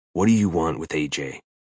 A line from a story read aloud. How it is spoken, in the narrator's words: Hayes lowers his voice to a deadly pitch and asks